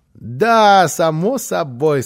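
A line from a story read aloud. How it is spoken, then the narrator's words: Child, bursting into laughter. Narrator (Russian): сказал малыш и так расхохотался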